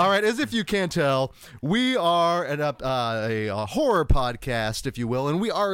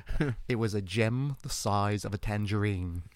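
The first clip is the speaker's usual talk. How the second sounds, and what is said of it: Put-on Australian accent. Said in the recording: “that's the only way I can actually try right. to do that Australian accent.”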